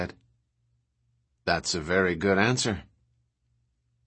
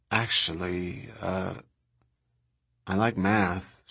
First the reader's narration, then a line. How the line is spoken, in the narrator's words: she said in a sort of guilty voice